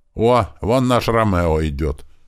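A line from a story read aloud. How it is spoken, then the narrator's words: Loud. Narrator (Russian): громко сказал Иван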